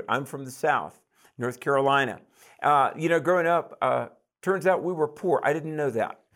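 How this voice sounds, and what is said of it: Southern US accent. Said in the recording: “I'm from the South. You probably couldn't tell that by my accent”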